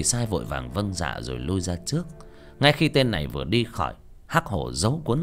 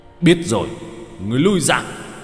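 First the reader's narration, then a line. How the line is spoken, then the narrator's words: Roaring. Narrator (Vietnamese): Hắc Hổ gầm lên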